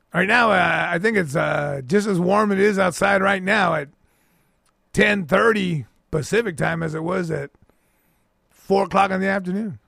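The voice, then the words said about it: Speaks with a noticeable accent. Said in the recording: “Ooh, I love that accent.”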